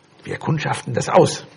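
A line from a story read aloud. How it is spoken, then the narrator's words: Eldest, bravest one whispering. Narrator (German): Timon, der Älteste und Mutigste, flüsterte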